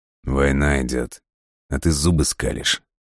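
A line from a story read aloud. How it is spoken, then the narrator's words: Gloomy question. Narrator (Russian): мрачно поинтересовался Тимур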